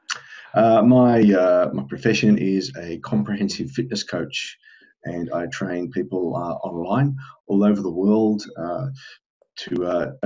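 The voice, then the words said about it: Australian English accent. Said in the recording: “obviously from my accent, I'm not from around your parts. I'm from Australia originally”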